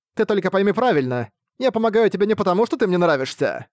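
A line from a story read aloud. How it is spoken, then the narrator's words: Snorting. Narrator (Russian): Фыркнула Тимаси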